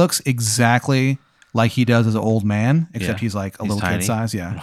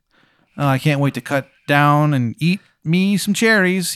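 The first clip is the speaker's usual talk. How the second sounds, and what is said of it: Exaggerated Virginia accent. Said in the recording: “He's got like a terrible Virginia accent.”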